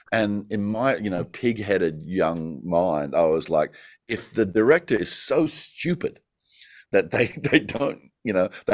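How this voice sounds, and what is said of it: Australian accent. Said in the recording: “my natural accent ... don't speak as an Australian”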